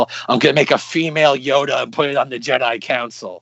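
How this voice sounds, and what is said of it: Imitates another person's voice. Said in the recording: “doing the George Lucas impersonation”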